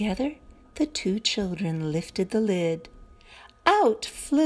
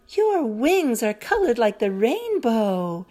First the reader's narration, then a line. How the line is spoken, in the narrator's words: exclaimed Pandora